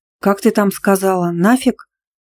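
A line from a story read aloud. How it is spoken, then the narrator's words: Slightly hoarse after sneezing. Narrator (Russian): Отчихавшись, хрипловато повторила Любка слова Дмитрия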